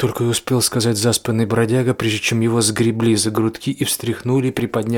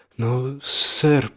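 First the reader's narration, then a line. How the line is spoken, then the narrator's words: Mumbling young man. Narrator (Russian): промямлил юноша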